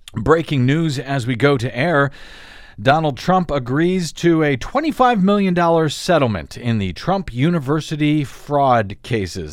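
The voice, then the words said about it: Hoarse, fading voice from a cold. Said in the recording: “my voice is fading in a little bit, in and out, fighting off a cold here”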